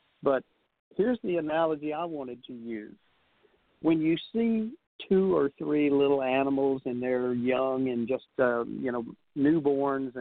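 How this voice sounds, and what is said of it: Allergy-affected, stuffy-sounding voice. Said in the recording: “you know I'm allergic to kitties. You can probably hear it in my voice.”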